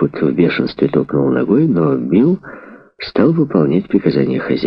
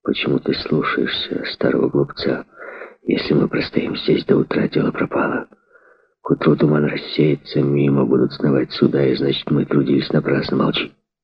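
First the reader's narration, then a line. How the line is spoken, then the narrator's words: Whispered reply. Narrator (Russian): шепнул в ответ рулевой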